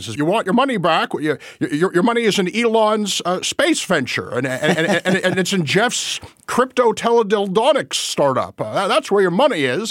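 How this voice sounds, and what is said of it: Jimmy Stewart impression. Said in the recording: “if your other impressions are as good as your Jimmy Stewart impression, I want to hire you for a kid's birthday party because that was great”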